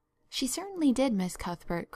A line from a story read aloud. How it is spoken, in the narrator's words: corroborated Flora Jane earnestly